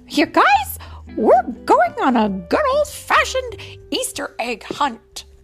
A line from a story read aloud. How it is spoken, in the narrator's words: Mickey exclaimed